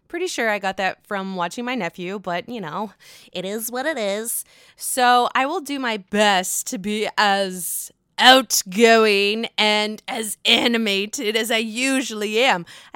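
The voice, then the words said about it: Lower, sore-throated voice. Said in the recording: “my voice is quite lower than normal. I am not feeling 100% per se. I have a sore throat.”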